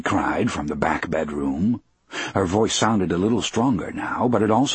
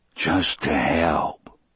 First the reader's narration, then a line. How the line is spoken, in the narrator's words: John Coffey said, in a voice so low it was hardly more than a whisper